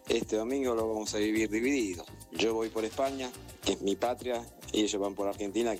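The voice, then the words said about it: Argentine Spanish accent. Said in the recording (Spanish): “mi acento argentino”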